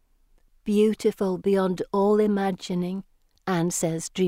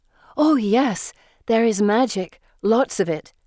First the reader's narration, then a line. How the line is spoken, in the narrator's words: Felicity exclaims